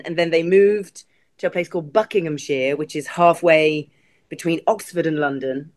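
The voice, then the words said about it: English accent with slight American tinge. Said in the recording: “I hear a little Ohio in that accent. ... Were you raised in England?”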